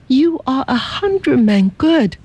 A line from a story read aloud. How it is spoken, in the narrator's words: she cried